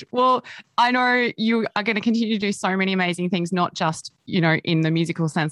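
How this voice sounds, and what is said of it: Speaks with a noticeable accent. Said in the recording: “We love hearing your beautiful accent.”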